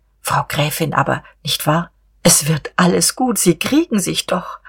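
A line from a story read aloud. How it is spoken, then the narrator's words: Soft, gentle. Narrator (German): Diederich wagte endlich wieder, leise und schonend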